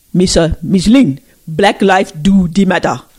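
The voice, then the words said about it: Put-on African accent. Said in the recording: “In the African accent.”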